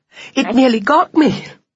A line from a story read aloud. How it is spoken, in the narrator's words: he cried